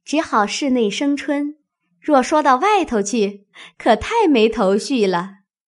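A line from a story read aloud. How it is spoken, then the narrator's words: Laughing. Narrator (Chinese): 宝琴笑道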